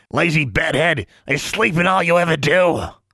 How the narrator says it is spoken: Honey snapped

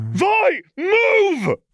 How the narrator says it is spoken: Caitlin screamed

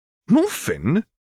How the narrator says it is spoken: exclaimed Hermione

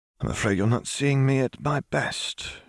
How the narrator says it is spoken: she croaked, her voice hoarse from lack of use, but her eyes twinkling in amusement

